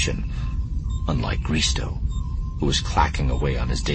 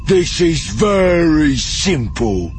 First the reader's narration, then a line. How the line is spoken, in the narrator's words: the leader said in a slow drawl